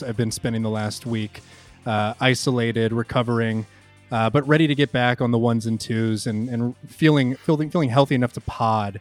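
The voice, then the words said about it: Slightly sick, congested-sounding voice. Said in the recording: “If you can hear it in my voice a little bit, that's what that is.”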